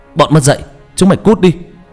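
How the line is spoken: Shouting. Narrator (Vietnamese): Anh ta hét lên

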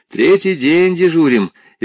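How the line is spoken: Cheerful. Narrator (Russian): весело сказал Анатолий Георгиевич

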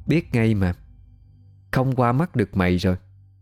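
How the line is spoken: Familiar voice. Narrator (Vietnamese): vang lên giọng nói quen thuộc

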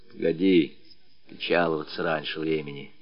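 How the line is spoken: Quiet remark. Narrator (Russian): тихонько заметил Матюшка

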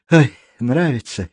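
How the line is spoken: Happy sigh. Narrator (Russian): счастливо вздохнула Марта

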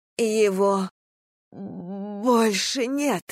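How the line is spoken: Strained, forced out. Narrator (Russian): выдавила она

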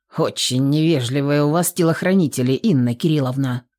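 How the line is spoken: Gloomy declaration. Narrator (Russian): мрачно заявил он

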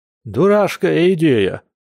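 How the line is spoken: Grumbling. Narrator (Russian): проворчал Яр

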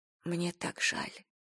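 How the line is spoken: Whisper. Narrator (Russian): прошептала она

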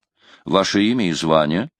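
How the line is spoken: Plain. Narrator (Russian): Квентин сказал

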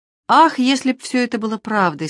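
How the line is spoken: Heavy sigh. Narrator (Russian): сказала она, тяжело вздохнув

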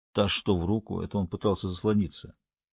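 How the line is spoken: Grumbled. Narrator (Russian): он буркнул

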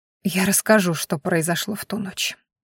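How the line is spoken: Tired. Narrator (Russian): устало сказала она

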